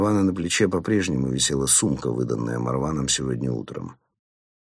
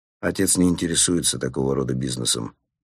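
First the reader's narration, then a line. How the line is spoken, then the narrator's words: Dry. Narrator (Russian): сухо ответил он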